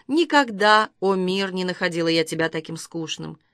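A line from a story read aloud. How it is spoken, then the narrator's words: Soft singing to herself. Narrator (Russian): Она мягко запела себе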